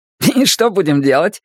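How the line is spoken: Cheerful question. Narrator (Russian): спрашивает Мак весело

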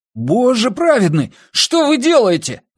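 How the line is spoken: Shrill squeal. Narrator (Russian): взвизгнул он

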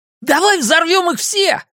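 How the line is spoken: Ecstatic shout. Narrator (Russian): закричал Ричи вне себя от радости

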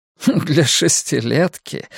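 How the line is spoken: Man laughing. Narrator (Russian): рассмеялся худой лавочник в очках

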